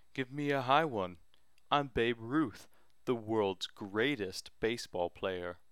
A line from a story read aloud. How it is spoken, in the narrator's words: shouted